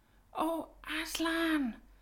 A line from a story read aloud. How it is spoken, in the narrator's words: whispered Susan in the lion's ear